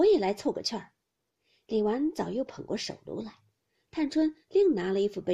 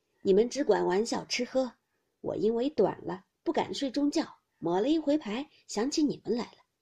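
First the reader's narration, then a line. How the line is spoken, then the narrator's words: Sly laugh. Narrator (Chinese): 贾母阴笑道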